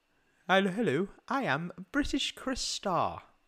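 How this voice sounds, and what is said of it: Put-on British accent. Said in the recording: “are you trying to say that I can't do a British accent? ... You should do the rest of the show in a British accent”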